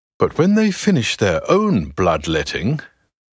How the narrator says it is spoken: continues James, his voice now rising

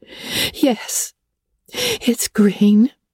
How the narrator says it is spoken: moaned Anne

